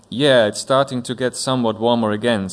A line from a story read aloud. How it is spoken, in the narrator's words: said the principal